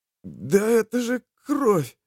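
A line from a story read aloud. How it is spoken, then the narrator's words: Hoarse exclamation. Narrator (Russian): вырвался у Ярослава хриплый возглас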